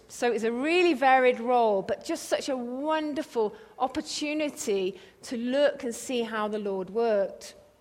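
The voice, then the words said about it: English accent. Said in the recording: “another English accent”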